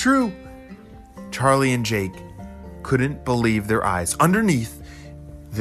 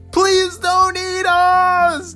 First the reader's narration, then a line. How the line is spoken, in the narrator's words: Charlie and Jake both screamed